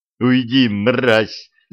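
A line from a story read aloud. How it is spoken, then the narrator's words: Yelled. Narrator (Russian): заорал я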